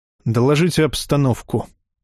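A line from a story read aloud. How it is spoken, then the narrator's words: Gentle demand. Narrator (Russian): мягко потребовал Бер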